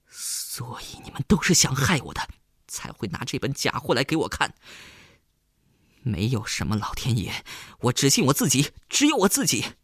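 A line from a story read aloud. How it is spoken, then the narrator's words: Breathless, stern. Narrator (Chinese): 东路急速的喘了几口气，厉声道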